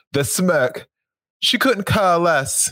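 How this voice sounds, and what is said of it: Poor put-on English accent. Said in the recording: “my English accent is terrible.”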